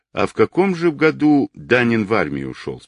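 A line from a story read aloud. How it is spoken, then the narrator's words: Plain. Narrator (Russian): спросил Гуров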